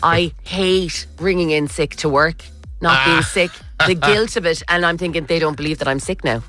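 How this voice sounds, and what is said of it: Irish Kerry accent. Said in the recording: “saying catch in my Kerry accent”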